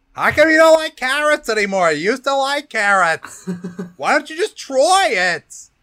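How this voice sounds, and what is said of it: Imitates another person's voice. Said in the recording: “a very good impression right there. Pretty spot on.”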